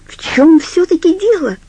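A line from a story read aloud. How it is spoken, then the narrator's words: Shout. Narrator (Russian): закричала она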